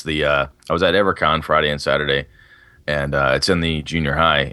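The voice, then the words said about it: Rough, hoarse voice. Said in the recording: “my voice is pretty rough. Yesterday was worse ... everything is dry as a bone ... I'm sure I'm coming down with something as well”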